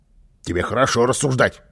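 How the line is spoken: Angry grumble. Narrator (Russian): сердито пробурчал Карлсон

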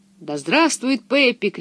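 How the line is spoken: Shouting crowd. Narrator (Russian): кричала толпа на ярмарочной площади

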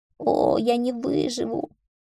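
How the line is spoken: Groan. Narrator (Russian): Тедди застонал

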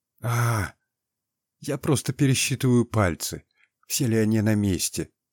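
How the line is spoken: Quiet. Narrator (Russian): тихо сказал водяной

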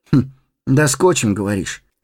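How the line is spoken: Skeptical hum. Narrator (Russian): хмыкнул Фродо

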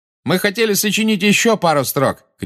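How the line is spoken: Shout. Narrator (Russian): крикнул Малфой

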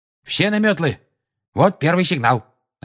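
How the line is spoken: Curt, clipped. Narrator (Russian): отрывисто произнес Люпин

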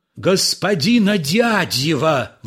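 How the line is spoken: Rapturous shout. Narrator (Russian): восторженно закричал Полисов

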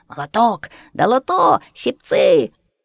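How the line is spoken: Hoarse shouts. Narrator (Russian): хриплые выкрики

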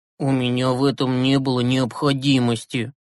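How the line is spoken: Guilty mumble. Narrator (Russian): виновато пробормотал Юрасик

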